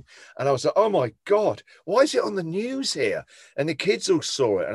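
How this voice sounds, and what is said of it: English accent. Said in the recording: “Because you're the only English guy. Suddenly people would recognise my accent.”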